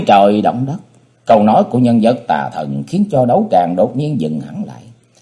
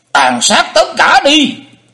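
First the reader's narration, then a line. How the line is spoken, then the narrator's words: Shrill ghostly voice. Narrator (Vietnamese): Hải ma giáo chủ giọng the thé như ma hồn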